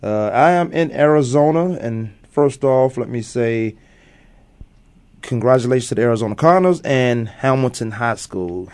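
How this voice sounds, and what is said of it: Tired, deep low voice. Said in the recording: “I'm so tired. You might even hear it in my voice. I might really have that Barry White.”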